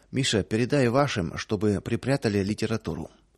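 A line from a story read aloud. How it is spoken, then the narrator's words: Low voice. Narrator (Russian): хозяин вполголоса сказал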